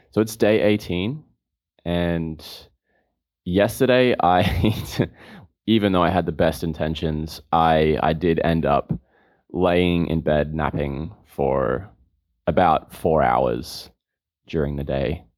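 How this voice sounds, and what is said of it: Voice slightly off, not fully recovered. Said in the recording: “my voice is still a little bit off, and I'm still recovering”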